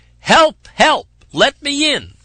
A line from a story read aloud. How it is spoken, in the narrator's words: Someone was pounding and shouting outside